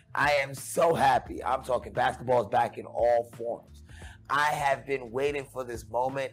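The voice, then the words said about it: Happy, excited voice. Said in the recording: “as you can tell in my voice, you can tell by the smile on my face”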